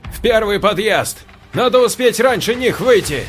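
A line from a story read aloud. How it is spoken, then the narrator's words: Shouted. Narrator (Russian): крикнул Саша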